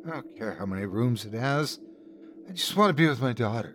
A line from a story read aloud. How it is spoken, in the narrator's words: My wife looked at him with tear-glazed eyes and muttered